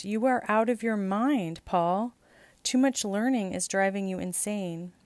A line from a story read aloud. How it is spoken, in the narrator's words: Festus exclaimed